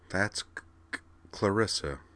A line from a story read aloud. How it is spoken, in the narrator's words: Kate murmured, as if to herself